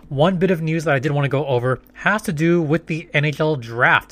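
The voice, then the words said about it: Hoarse, strained voice. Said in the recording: “still having somewhat of a voice ... my voice is getting somewhat better, still coughing a little bit”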